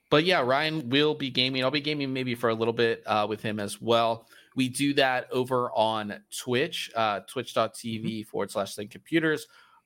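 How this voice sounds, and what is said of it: Raspy, sick-sounding voice. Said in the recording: “Sorry, I'm under the weather, guys... my sick raspy voice”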